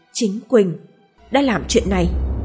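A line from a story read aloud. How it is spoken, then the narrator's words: Muttering. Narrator (Vietnamese): An lẩm bẩm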